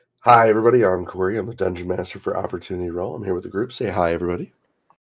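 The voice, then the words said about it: Voice sounds unwell, below normal. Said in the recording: “my voice is not the greatest today. I'm a bit under the weather.”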